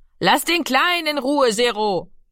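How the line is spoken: Called out. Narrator (German): rief Mami

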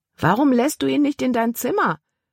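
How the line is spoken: Calling after someone. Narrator (German): rief Caleb ihr nach

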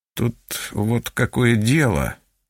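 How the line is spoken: Mumbling. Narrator (Russian): начал мямлить он

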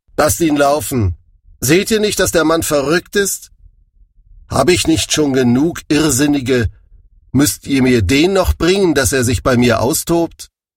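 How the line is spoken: King calling out. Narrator (German): ihr König Achis rief

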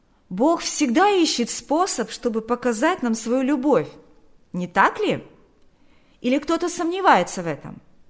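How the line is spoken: Shouting after someone. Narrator (Russian): Берни крикнул вслед

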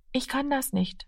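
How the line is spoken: Quiet. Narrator (German): sagte er leise

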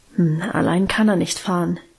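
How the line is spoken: Murmuring. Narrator (German): murmelte sie

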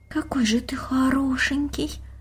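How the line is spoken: Admiring whisper. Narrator (Russian): прошептала девочка

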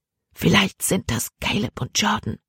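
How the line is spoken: Whispered. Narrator (German): flüsterte Libby

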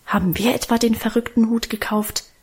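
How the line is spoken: Defiant mutter. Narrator (German): murmelte er trotzig

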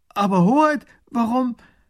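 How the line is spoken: Minister calling out. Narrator (German): Der erste Minister ruft

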